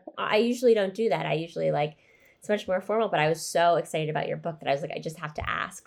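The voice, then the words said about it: Stuffy, congested voice. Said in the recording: “my voice sounds stuffy, it's because I've been sick.”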